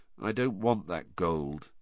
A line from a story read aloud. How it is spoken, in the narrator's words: said Harry in an expressionless voice